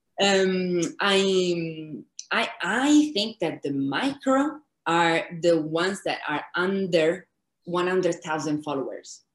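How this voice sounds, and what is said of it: Italian accent in English. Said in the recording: “I'm Italian, I have a very bad that, accent.”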